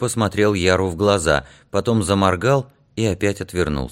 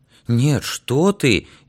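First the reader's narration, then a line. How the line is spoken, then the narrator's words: Frightened and sincere. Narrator (Russian): испуганно и честно сказал Игнатик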